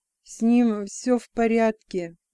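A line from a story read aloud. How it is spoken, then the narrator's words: Strained, dry-mouthed. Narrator (Russian): выдавил Джексом, с трудом ворочая пересохшим языком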